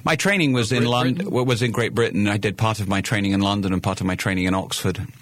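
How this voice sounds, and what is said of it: British accent with some Virginia influence. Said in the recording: “that accent that I'm detecting doesn't sound like a native North Carolinian ... this is my Virginia accent ... I came from the other side of the pond and grew up there ... I just retained the accent”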